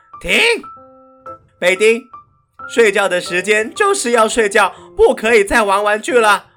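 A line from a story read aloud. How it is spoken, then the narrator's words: Loud firm speech. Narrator (Chinese): 大嘴鸟先生大声地说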